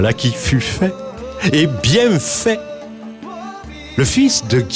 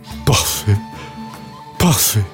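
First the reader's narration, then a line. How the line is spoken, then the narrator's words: Emperor's faintly hopeful sigh. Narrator (French): soupira l'empereur en reprenant vaguement espoir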